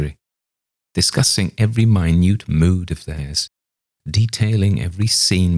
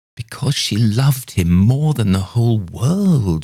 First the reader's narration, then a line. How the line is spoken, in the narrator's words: she exclaimed